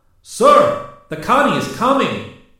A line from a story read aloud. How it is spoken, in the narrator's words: Santos suddenly yelled